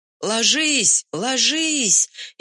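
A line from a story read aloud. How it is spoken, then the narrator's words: Frantic young man's scream. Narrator (Russian): истошно кричал молоденький лейтенант, вчерашний выпускник военного училища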